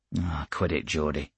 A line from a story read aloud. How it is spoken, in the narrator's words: I said irritably